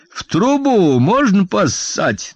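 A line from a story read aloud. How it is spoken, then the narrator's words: Mocking shout from above. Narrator (Russian): насмешливо крикнул он сверху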